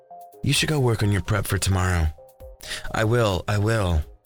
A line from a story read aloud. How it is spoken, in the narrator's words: Jordan sighed